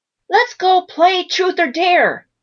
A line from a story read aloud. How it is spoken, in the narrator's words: Maggie shouted with excitement